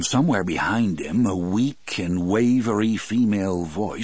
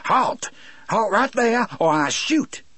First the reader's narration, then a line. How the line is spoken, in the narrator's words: He pulled in breath and yelled in a voice that was reedy but strong